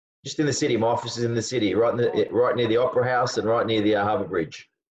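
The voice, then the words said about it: Australian accent. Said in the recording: “that accent, that Aussie accent ... the Aussie accent is one that stands out from the crowd”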